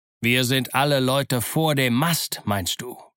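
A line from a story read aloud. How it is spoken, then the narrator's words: Gruff snapping. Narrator (German): schnauzte Silver ihn an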